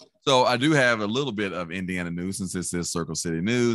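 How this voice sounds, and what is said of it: Usual voice. Nothing is said of it.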